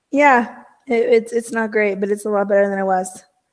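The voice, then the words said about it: Hoarse, partly lost voice. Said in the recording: “can't talk... I start losing my voice... she could not talk when she got here. So it's a little better, but not great.”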